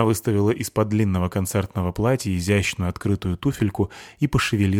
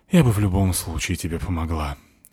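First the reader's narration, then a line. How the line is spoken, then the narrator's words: Sighing. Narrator (Russian): сказала, вздохнув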